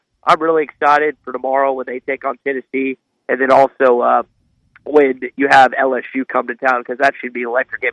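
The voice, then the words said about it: Stuffy, congested voice. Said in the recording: “I'm a little stuffy. I think I've got a cold”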